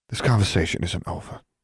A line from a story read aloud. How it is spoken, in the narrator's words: she said softly